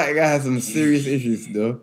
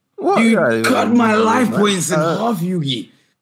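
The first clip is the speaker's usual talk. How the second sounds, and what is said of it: Impression of a cartoon character. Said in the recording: “you did the best impression”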